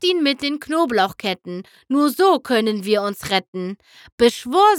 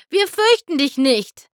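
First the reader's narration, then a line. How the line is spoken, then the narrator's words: Calling out. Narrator (German): rief Rainbow Dash Cass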